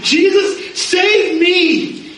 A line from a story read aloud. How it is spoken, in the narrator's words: screams out